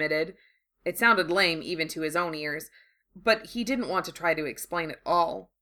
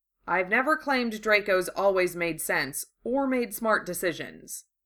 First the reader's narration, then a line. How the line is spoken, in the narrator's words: he said dryly